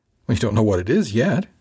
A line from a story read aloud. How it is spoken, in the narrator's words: said, chuckling in protest